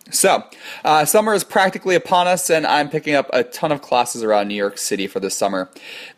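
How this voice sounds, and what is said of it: Slightly weird voice from a cold. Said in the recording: “my voice sounds a little bit weird ... a lovely little springtime cold ... if my voice sounds weird”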